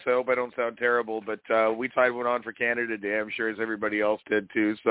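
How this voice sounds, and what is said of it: Hoarse voice. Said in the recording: “I'm fighting a little bit of a hoarse voice.”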